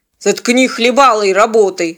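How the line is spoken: Growled. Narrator (Russian): рыкнул он

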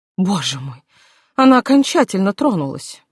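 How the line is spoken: Groan. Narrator (Russian): простонала Маргарет

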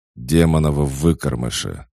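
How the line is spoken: Growling. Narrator (Russian): рычал Неро

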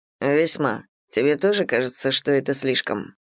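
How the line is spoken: Gloomy laugh. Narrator (Russian): Крис мрачно смеется

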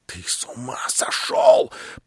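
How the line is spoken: Sudden whisper. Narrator (Russian): прошептал вдруг Птицын

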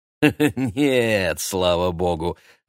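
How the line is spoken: Laughing. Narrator (Russian): рассмеялся Юлиан Семенович

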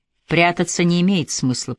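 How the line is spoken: Quiet speech. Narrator (Russian): произнес негромко

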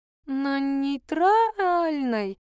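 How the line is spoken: Disappointed drawl. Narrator (Russian): разочарованно протянула журналистка

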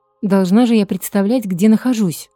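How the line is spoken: Irritated. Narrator (Russian): скажу это раздраженно

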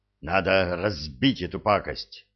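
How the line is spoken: Breathless exhale. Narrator (Russian): выдохнул Энет

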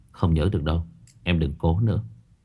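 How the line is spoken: Lowered voice. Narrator (Vietnamese): Phong Đình hạ giọng

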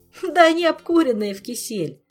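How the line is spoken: Giggling, disrespectful. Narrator (Russian): хихикнул непочтительный ученик

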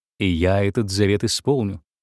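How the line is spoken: Menacing. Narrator (Russian): грозно сказал художник

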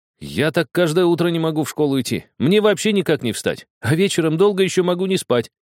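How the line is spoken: Ringing laugh. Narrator (Russian): рассмеялся звонко Влад

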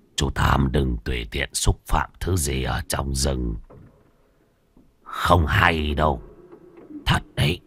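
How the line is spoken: Old man's soft reminder. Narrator (Vietnamese): Lão ăn mày khẽ nhắc

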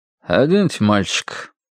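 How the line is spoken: Flat, dull command. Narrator (Russian): тусклым голосом велел дядька в белом халате

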